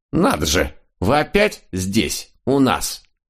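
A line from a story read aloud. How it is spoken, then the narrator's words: Angry, offended. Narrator (Russian): сердито сказала она, обиженная долгим невниманием к себе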